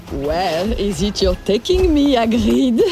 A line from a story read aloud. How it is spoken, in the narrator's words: she said playfully